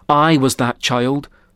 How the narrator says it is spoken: the preacher said

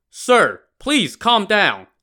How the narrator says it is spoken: Chao Gai shouted

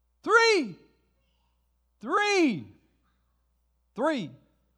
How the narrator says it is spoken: a child yells

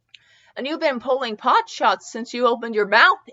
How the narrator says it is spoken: Edge exclaimed

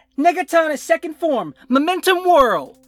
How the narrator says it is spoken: He shouts out

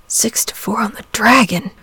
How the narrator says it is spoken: murmured St

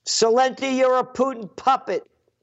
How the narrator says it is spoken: this guy yelling out

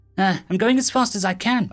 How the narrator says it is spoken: I panted

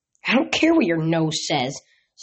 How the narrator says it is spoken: snarled the half-human, half-dog voice

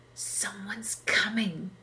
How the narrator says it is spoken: whispered Junkie

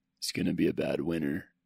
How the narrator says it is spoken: Carson said softly

